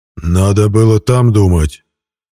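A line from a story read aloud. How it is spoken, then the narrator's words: Barked. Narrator (Russian): рявкнул хозяин кладбища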